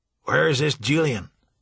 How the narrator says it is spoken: Tom Johnson growled

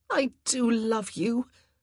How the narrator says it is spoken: she gasped

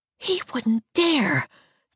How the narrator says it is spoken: Dolly whispers

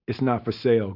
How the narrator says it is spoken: Groove said

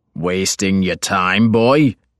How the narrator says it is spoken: my father had snarled

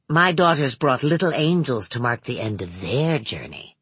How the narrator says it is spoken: Manx said in a distant, musing voice

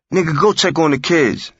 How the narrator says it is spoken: she barked

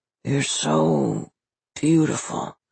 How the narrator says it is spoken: Fitch mumbled

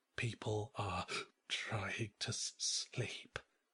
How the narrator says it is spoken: he hissed

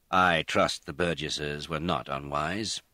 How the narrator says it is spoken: He said stiffly

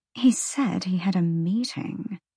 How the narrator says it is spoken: Sandriel murmured

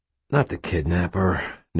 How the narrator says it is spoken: Nick sighed

